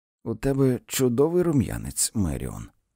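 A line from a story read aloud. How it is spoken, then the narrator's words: Gentle. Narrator (Ukrainian): лагідно сказала Джейн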